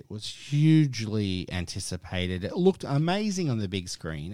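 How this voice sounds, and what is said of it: Noticeable accent in English. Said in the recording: “sorry about my accent, if you cannot understand what I'm saying”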